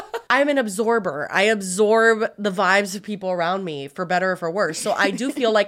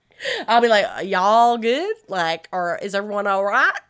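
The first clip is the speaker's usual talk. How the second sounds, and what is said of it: Put-on American country accent. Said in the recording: “I would leave with a country accent.”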